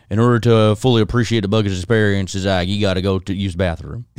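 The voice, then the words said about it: Poor impression of a friend's voice. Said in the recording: “I'm going to try to do Brent accent. ... That was a bad Brent”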